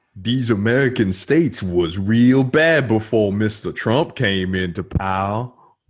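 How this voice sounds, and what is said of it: Put-on old slave accent. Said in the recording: “in a like old slave accent ... Slave accent.”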